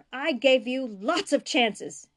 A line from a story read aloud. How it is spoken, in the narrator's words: he spat